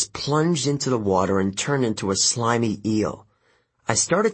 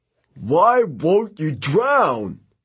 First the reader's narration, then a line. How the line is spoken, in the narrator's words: he wailed